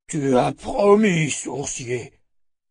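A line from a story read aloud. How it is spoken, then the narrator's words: Grumbled. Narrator (French): grogna-t-il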